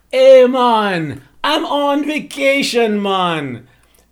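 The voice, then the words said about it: Put-on Caribbean accent. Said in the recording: “that accent is deceptive because I'm actually not going to the Caribbean”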